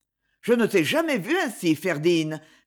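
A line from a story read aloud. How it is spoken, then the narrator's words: Reproachful tone. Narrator (French): fit Siméon d'un ton de reproche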